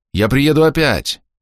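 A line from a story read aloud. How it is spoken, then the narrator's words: Shout. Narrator (Russian): крикнул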